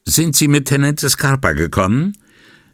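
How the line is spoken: Calling out. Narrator (German): rief er dem jungen Beamten zu

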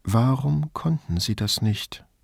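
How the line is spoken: Quiet question. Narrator (German): fragte Grifoni leise

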